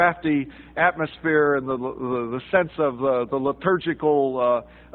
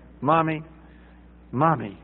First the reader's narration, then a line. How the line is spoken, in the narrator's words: he whispered, not too quietly